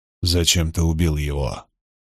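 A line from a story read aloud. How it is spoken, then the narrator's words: Cold, stern voice. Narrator (Russian): Голос Ранда звучал холодно и сурово, и лишь отчасти из-за окружавшей его пустоты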